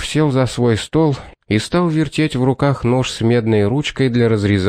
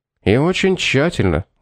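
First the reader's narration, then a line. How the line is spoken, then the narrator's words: Dejected confirmation. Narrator (Russian): уныло подтвердил Пит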